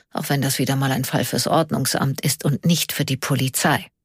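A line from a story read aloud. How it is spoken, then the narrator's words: Quiet murmur. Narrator (German): murmelte er leise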